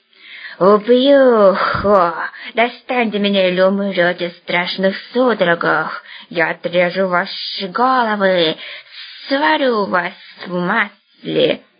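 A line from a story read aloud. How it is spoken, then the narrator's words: Hissing threat. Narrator (Russian): зашипел хмырь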